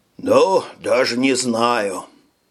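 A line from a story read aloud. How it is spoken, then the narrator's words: Sighing. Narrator (Russian): вздохнул Фред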